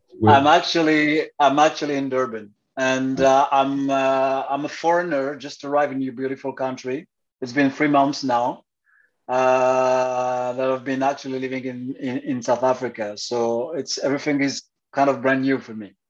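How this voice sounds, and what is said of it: French accent in English. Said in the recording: “I've got the accent.”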